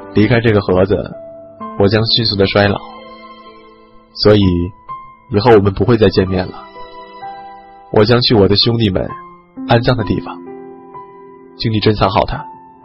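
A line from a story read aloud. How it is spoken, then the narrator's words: Low voice. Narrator (Chinese): 旅客低声说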